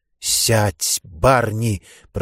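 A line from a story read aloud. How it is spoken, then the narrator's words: Hissing. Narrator (Russian): прошипел Маршак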